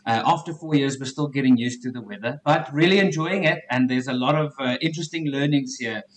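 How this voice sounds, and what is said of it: South African accent. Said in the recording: “you've got a South African accent”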